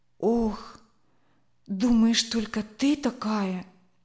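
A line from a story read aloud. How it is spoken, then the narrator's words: Heavy sigh. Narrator (Russian): Тяжело вздохнула Ирина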